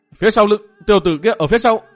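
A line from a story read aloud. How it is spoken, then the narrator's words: Shouting. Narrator (Vietnamese): Bang đồ tiếp hét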